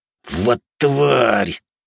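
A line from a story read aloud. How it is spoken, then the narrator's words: Hissed. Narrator (Russian): прошипел первый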